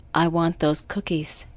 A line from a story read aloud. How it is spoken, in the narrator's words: she quietly told Todd